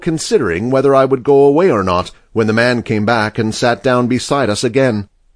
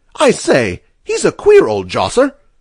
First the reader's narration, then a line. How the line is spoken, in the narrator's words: Mahoney exclaimed again